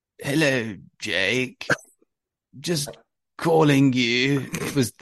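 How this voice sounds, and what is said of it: Slow, old man's voice impression. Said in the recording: “Anthony Abrahams was quite an old selector, frankly, and he spoke very slowly. And I just put on his accent, or his, you know, the way he spoke ... It was that kind of slow.”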